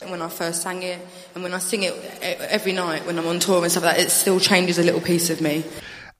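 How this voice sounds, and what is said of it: Strong Essex Cockney accent. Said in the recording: “She speaks with a Cockney accent ... she's got like a well Essex accent”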